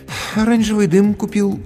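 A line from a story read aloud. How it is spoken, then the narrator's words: Sighing. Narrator (Russian): вздохнул администратор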